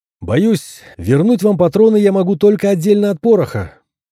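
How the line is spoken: Shouted. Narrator (Russian): крикнул я

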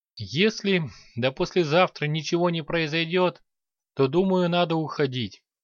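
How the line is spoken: Sighing. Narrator (Russian): вздохнул скоморох

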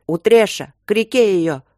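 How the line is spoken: Yelling in battle. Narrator (Russian): заорал Трот

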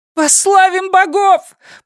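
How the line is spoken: Shrill woman's shout. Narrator (Russian): пронзительно закричала женщина

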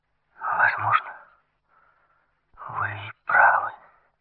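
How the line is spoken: Halting, submissive voice. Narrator (Russian): ответила прерывистым голосом, в котором прозвучала несвойственная ей покорность

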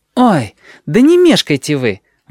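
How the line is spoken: Exclamation. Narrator (Russian): воскликнула Джотто

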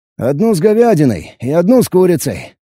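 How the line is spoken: Cheerful reply. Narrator (Russian): бодро отозвался я

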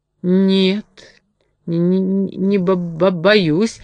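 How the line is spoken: Trembling mumble. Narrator (Russian): дрожащим голосом пробормотал медведь

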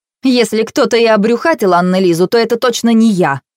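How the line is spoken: Snapping. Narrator (Russian): огрызнулась она

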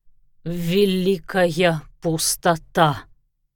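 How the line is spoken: Half-spoken moan. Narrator (Russian): то ли выговорил, то ли простонал он

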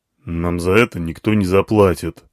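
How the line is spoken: Elephant muttering gruffly. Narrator (Russian): буркнул слон

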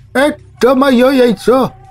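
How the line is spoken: Ignored man's shout. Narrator (Russian): крикнул игнорируемый всеми птичник

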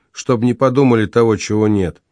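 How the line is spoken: Cold remark. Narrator (Russian): прибавил он холодно

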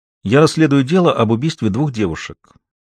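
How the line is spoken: Plain. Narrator (Russian): сказала Маша

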